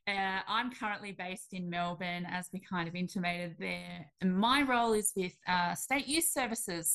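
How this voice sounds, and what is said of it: Australian accent. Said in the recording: “You can probably pick up by the accent that I am also Australian.”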